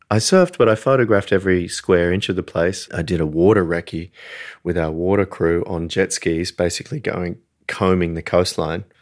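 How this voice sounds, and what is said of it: Australian accent. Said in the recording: “it's my Australian accent playing with you”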